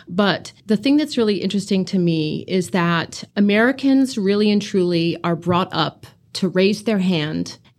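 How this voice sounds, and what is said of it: American accent. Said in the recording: “you can tell from my accent, I'm not from around here. I'm an American.”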